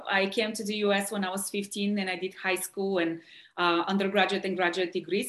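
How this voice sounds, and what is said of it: Bulgarian accent. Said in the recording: “as you can tell from my accent, I'm not local. I'm originally from Bulgaria, which is in Eastern Europe”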